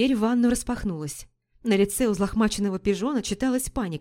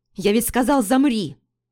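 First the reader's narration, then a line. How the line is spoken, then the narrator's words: Barking. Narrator (Russian): рявкнул пижон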